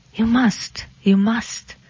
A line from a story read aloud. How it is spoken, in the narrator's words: she whispered